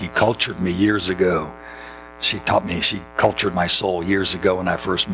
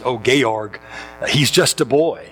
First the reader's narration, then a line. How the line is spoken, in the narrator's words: Baroness von Schrader exclaims